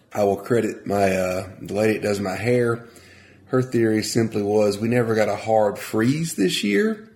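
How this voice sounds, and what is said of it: Congested, nasal voice. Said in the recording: “You can hear it in my voice. I'm not the normal high-pitched, sometimes raspy ... I'm just congested.”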